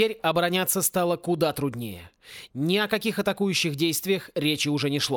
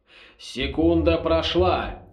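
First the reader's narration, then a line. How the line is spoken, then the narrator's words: Plain. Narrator (Russian): ответил бывший ректор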